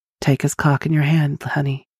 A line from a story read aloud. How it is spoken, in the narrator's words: whispered Loretta